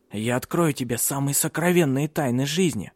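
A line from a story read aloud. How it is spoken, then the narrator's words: Whispering. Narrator (Russian): шептал он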